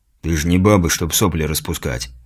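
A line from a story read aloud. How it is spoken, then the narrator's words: Grumbled. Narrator (Russian): буркнул Вал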